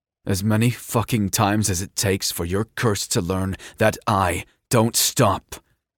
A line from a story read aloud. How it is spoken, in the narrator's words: Kai snarled